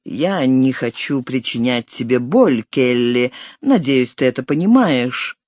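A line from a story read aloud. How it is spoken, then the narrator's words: Calm. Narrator (Russian): Перед окончательным разрывом он сказал ей спокойно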